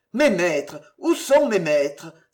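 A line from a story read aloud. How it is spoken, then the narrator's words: Poor boy exclaiming. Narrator (French): s'écria le pauvre garçon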